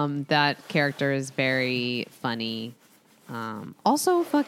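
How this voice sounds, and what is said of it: Usual voice. Nothing is said of it.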